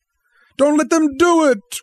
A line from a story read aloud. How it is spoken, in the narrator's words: wailed Peter at the ceiling, as if he was talking to the house, the nursery